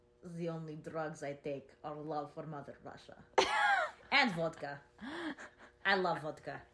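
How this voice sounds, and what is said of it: Put-on Russian accent. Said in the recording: “I'll do any accent. Give me an accent. ... Russian.”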